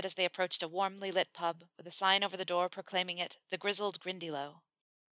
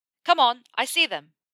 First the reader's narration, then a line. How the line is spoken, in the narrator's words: Ron shouted in his ear